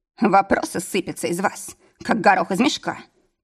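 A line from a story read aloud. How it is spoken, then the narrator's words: Grumbled. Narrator (Russian): проворчал он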